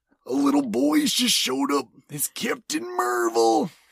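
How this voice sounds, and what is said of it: Put-on character voice. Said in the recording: “that voice ... impersonation”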